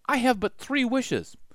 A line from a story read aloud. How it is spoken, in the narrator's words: the Sumac said timidly